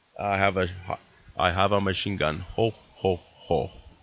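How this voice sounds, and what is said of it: Imitates a movie villain's voice. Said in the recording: “I can't really do a good impression”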